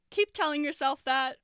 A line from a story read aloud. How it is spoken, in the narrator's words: Neil says through a laugh